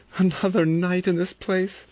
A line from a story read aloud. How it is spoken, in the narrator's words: Vera cried